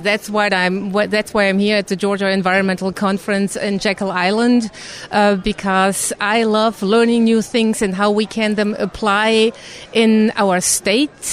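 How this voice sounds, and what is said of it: German accent. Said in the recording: “you can hear that German accent, and Representative Kausch is from Germany”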